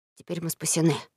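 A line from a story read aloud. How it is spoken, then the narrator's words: Whisper. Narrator (Russian): шепнул Том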